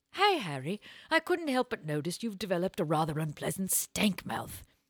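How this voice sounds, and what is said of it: Put-on posh English accent. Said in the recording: “a little Downton Abbey ... Everything sounds better with an English accent.”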